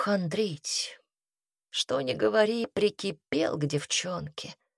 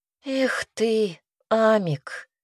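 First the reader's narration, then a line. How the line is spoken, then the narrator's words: Sighing. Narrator (Russian): Ясмина вздохнула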